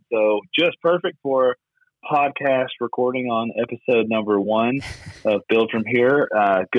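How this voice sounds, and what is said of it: Hoarse, partly lost voice. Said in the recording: “I've lost my voice a little bit ... yelling at my kid, cheering him on at his baseball game tonight”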